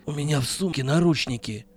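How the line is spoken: Breathless wheeze. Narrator (Russian): прохрипел запыхавшийся Вадим

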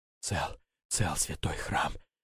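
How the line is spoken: Sovereign whispering. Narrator (Russian): шептал государь

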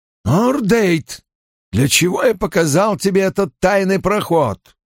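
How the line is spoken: Barking. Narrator (Russian): рявкнул Найл

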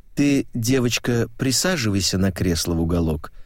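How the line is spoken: Calm. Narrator (Russian): спокойно сказала Эмма

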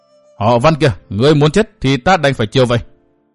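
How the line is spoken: Roaring woman. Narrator (Vietnamese): Phụ nhân áo xanh gầm thét nói

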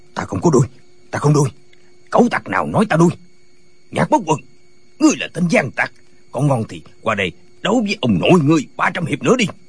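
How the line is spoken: Quiet but angry. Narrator (Vietnamese): Tiếng nói này không lớn, nhưng Tả Lãnh Thiền tức giận quát lên

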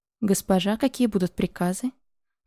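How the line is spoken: Even voice. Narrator (Russian): Ровным голосом произнесла

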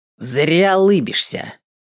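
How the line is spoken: Rude. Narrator (Russian): грубо добавил он

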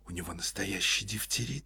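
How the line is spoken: Whispered question. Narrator (Russian): спросила шепотом Ольга Ивановна

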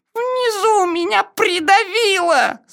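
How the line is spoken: Squashed, muffled voice. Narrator (Russian): сказал Пятачок придавленным голосом

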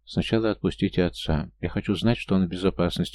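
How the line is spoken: Quiet young woman. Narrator (Russian): негромко произнесла девушка

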